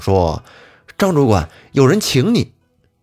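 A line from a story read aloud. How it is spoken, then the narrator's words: Calling out. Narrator (Chinese): 一个人 叫道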